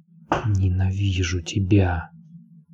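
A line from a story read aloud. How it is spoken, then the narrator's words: Whisper. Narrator (Russian): прошептала она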